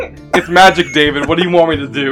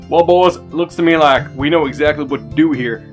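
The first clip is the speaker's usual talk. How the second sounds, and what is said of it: Put-on Texan accent. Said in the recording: “weird Texan accent”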